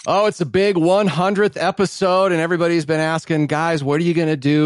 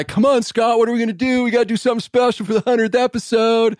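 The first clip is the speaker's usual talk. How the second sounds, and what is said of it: Imitates another person's voice. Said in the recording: “That's a pretty good impersonation of me right there.”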